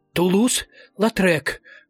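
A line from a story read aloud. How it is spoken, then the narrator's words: Strained, forced out. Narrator (Russian): выдавил он с трудом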